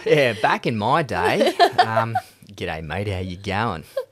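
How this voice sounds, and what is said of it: Put-on Australian accent. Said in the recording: “That sounded very Aussie. ... That's really good.”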